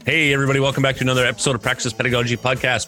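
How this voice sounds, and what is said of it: Very fast speech. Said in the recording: “said that fast”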